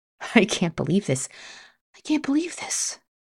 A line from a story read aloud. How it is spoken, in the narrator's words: I muttered to myself